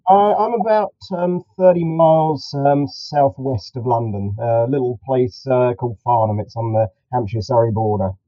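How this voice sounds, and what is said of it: British English accent. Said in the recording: “hi from the UK, as, as you can probably spot from my accent”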